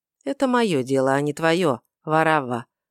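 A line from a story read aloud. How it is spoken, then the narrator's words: Answered calmly. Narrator (Russian): ответил Мельхиор спокойно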